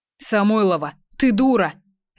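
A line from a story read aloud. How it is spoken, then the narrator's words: Barked. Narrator (Russian): рявкнул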